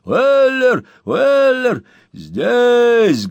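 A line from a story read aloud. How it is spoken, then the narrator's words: Thunderous bark. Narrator (Russian): громовым голосом гаркнул Сэм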